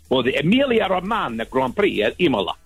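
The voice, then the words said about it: Bad put-on Italian accent. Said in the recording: “That's my very bad Italian accent there.”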